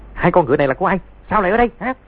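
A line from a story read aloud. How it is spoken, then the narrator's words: Shout. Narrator (Vietnamese): tiếng quát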